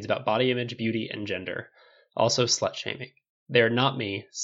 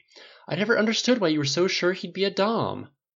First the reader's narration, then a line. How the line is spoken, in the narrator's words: his mother exclaimed, exasperated